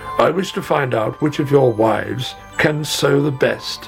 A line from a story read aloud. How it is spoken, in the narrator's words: he said